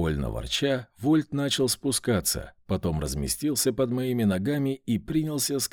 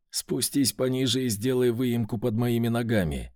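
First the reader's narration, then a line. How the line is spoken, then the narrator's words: Plain. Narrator (Russian): сказал я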